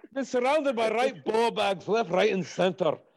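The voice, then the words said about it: Good put-on Scottish accent. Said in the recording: “I keep doing the Scottish... That's such a good accent.”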